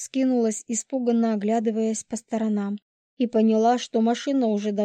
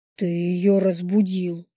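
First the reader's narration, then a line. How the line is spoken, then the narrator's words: Growl. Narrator (Russian): рыкнул Лис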